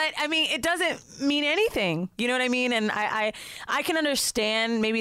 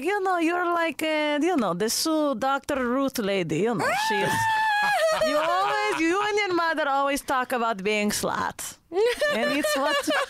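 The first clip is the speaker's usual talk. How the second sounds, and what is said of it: Put-on Israeli accent. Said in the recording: “Where did the accent come from? ... My dad's Israeli”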